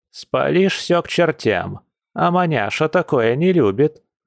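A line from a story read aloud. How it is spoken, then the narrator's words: Old woman grumbling from afar. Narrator (Russian): ворчала ее старушка с кухни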